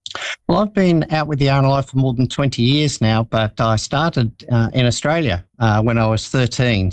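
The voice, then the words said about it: Australian accent. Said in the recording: “I think the accent might give it away. ... A little bit of an accent”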